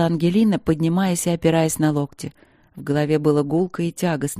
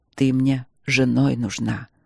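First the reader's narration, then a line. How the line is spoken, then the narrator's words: Low, hard rumble. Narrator (Russian): Пророкотал Нори глухо и жестко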